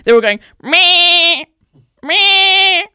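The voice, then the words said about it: Imitates sheep bleating. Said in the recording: “I'm going to do my best sheep impression now for you all.”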